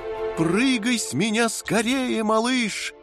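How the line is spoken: Shouting. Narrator (Russian): закричала комета

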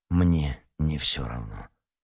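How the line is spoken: Muffled, hollow reply. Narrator (Russian): глухо ответил Никита

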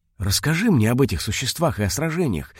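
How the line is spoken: Excited request. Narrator (Russian): взволнованно попросил Вико

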